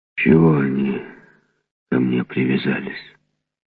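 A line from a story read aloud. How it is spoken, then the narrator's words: Grumbling young giant. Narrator (Russian): ворчал молодой гигант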